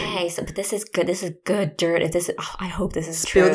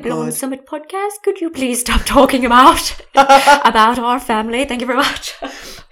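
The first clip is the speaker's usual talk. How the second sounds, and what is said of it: Convincing put-on accent. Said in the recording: “Your accents are so good.”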